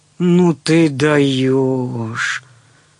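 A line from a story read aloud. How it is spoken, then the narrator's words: Surprised drawl. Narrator (Russian): протянул удивленно Белозеров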